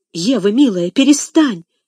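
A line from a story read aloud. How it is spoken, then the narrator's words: Exclaiming, suppressing tremble. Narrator (Russian): воскликнул Сен-Клер, стараясь сдержать дрожь в голосе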